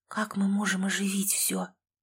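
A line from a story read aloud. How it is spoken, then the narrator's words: Faint weak whisper. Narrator (Russian): прошептала я еле двигающимися губами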